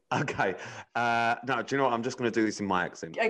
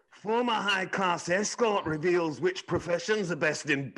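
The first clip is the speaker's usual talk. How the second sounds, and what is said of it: Poor attempt at Scottish accent. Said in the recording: “I'd like you to try a Scottish accent. ... I'm really bad at Scottish accents. ... That's fucking terrible. ... I didn't know what you were saying”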